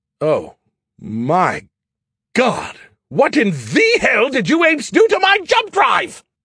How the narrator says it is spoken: His voice was an uncharacteristic screech

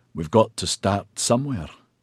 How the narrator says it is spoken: he croaked

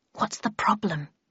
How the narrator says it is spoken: whispered

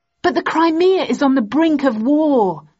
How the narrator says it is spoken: I exclaimed angrily

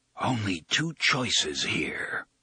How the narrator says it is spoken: Roland whispers

